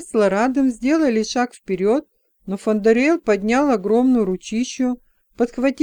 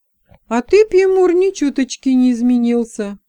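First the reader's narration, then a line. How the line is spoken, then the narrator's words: Mock stern. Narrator (Russian): притворно нахмурила брови Леса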